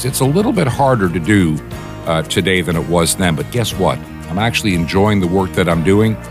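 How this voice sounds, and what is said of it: Weak, tired voice. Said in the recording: “my voice sounds a little bit weak today”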